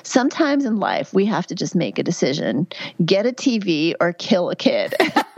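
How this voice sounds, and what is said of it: Heavy Georgia Southern accent. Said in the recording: “heavy Southern accent ... in this heavy Georgia accent”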